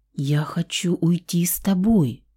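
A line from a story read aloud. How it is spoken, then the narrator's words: Whisper. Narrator (Russian): прошептала я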